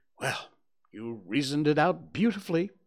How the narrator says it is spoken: I exclaimed in unfeigned admiration

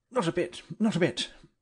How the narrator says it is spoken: he answered hastily

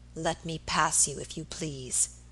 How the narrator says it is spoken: said in an icy voice

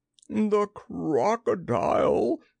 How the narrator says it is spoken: he gasped

